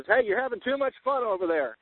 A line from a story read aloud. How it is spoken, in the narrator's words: not being a shy creature, I hollered out and says